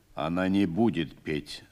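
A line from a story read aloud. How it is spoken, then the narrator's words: Calm. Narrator (Russian): спокойно сказал командир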